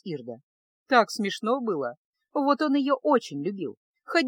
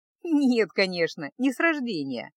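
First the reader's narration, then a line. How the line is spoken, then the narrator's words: Laughing. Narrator (Russian): засмеялась Ирда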